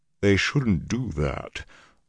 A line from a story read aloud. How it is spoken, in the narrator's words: Loyal's rumble sounded halfway to a snarl